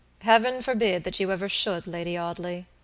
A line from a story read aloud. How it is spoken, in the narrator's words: Robert said gravely